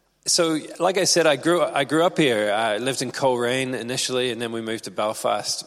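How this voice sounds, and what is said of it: Mixed, hard-to-place English accent. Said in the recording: “my accent just is a bit of a shambles ... I married an American. That adds a little twist there”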